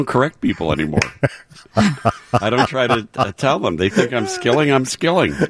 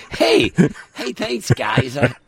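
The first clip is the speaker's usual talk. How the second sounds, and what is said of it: Imitates another person's voice. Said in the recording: “my Tom Skilling impersonation.”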